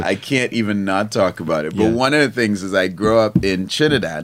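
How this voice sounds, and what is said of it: Trinidadian accent. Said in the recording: “I have my Trini accent”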